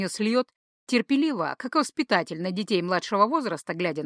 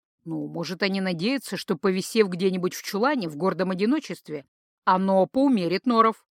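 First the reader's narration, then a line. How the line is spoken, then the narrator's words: Skeptical snort. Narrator (Russian): хмыкнул Гархаэт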